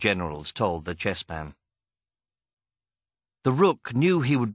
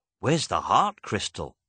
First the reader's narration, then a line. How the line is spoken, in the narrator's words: the Rook asked